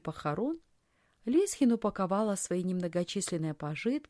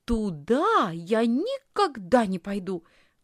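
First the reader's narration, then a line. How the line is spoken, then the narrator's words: Exclamation. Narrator (Russian): воскликнула Лисхин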